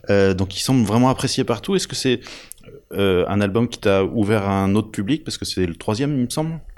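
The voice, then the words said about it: French spoken with English accent. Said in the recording (French): “quelqu'un qui a un accent anglais comme le mien”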